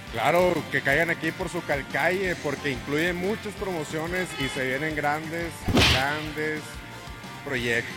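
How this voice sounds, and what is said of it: Radio announcer voice. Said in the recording (Spanish): “tú sí tienes voz de locutor”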